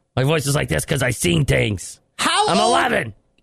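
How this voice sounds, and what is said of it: Gruff put-on character voice. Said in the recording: “Give him a gruffy voice.”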